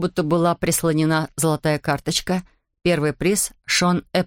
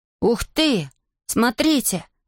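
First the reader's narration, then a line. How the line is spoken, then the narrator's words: Exclaimed. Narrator (Russian): воскликнул Эйден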